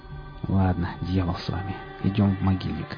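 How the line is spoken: Muttering. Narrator (Russian): пробормотал Рамир

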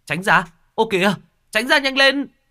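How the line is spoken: Passerby shouting. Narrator (Vietnamese): tiếng người đi đường hét lên

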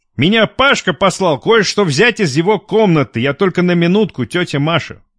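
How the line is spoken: Loud, tipsy voice. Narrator (Russian): Продолжал объяснять незнакомец громким подвыпившим голосом

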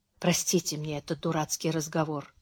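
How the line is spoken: Quiet. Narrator (Russian): тихо сказала Беатрис

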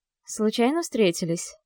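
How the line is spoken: Calm guess. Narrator (Russian): предполагает она спокойно

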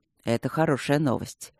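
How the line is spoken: Soft and gentle. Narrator (Russian): мягко и деликатно сказал Алекс

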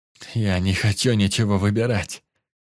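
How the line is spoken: Moaning. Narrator (Russian): простонал Потап

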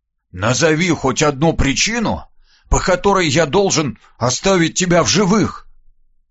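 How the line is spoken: Slightly hoarse boyish voice. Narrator (Russian): голоса, чуть хрипловатого, но явно мальчишеского

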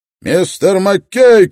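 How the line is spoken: Shouted. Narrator (Russian): крикнул Строн

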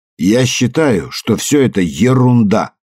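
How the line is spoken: Loud. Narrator (Russian): громко произнес Уайт

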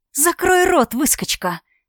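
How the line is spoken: Hissing female vampire. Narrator (Russian): зашипела вампирша

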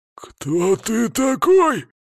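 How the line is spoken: Strained growl, faltering fighter. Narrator (Russian): снова зарычал некромант, начавший пропускать удары

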